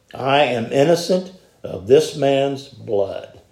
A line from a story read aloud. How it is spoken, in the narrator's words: said